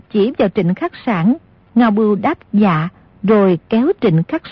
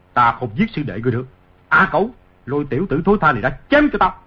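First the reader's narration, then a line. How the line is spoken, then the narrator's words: Angry. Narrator (Vietnamese): Ngô Lập Thân tức giận nói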